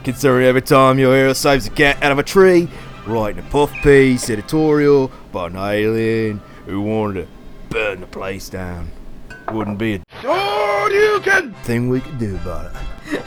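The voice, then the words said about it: Bad put-on Australian, Cockney-like accent. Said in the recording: “That was really terrible. ... At the end, it turned into some Australian accent. ... I wasn't expecting like a Dick Van Dyke chimney sweep accent”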